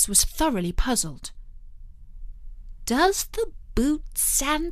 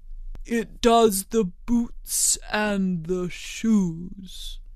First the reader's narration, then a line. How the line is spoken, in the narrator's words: the Gryphon replied very solemnly